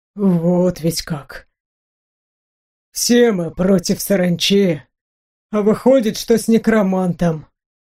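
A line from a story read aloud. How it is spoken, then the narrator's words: Ragged sigh. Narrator (Russian): Он прерывисто вздохнул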